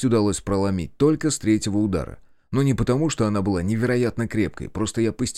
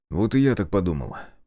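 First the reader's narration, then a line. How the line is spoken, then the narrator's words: Mumbling. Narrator (Russian): пробормотал я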